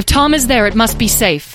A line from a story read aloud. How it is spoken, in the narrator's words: yelled Beatrice